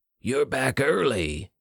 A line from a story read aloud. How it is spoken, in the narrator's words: Yurt growled